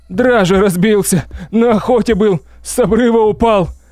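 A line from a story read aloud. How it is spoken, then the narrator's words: Sobbing. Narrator (Russian): зарыдала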